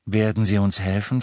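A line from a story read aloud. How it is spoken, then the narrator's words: Plain question. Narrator (German): fragte Harry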